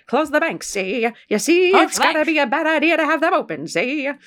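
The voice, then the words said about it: FDR impression sounding like Jimmy Hoffa. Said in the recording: “my impersonation of FDR would immediately turn into like some kind of what I imagine like Jimmy Hoffa to be like”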